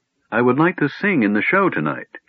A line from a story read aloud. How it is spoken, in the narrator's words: she said